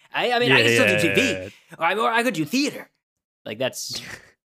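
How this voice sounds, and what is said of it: Good Quentin Tarantino impression. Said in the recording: “That's how Tarantino kind of says it ... That's my Quentin ... actually a good impression ... It's not a bad Tarantino, actually. Yeah. You got a lot of his mannerisms there.”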